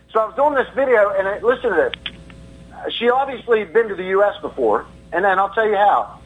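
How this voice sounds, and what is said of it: American Southern accent. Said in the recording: “I can tell you're racist by your accent. ... you're from the South”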